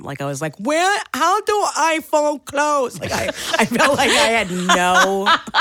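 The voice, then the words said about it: Dopey, slow-witted put-on voice. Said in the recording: “did a retard voice”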